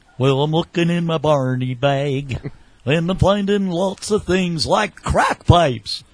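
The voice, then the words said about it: Impression of Barney. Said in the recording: “Barney impersonation”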